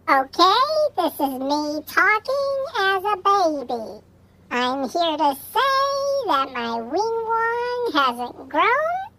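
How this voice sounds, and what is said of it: Baby voice. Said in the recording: “make my voice the baby voice”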